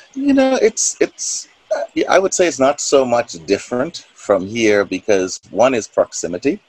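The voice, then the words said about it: Bahamian accent. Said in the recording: “people can probably tell right away from your accent that you're not from around here. So you are from the Bahamas.”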